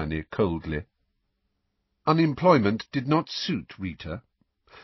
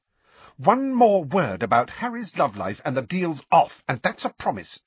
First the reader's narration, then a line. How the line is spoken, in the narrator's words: said Hermione irritably